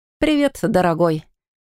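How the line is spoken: Mocking reply. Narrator (Russian): Насмешливо отозвалась ведьма

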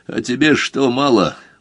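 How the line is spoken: Tired question. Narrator (Russian): устало спросил Мазур

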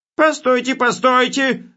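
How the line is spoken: Yelling. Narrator (Russian): заорал он

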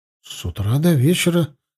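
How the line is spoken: Uncertain guess. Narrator (Russian): неуверенно предположил я

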